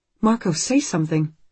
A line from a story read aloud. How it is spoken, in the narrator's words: Anne says anxiously